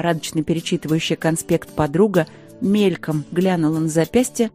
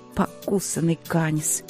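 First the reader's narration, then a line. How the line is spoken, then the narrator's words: Cursing through teeth. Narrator (Russian): Сквозь зубы выругалась я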